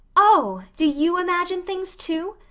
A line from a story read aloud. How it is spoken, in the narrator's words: Anne of the Shining Eyes exclaimed joyfully